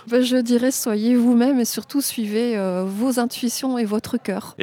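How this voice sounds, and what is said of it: Slight French accent. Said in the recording (French): “j'ai décelé un petit accent français ... un léger accent sympa, mais toujours agréable à écouter”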